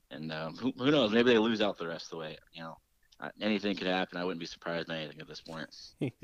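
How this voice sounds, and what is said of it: Dejected, defeated tone. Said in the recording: “you sound like a broken man”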